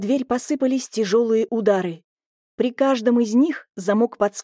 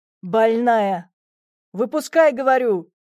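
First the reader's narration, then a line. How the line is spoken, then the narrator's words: Barked from below. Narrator (Russian): рявкнули снизу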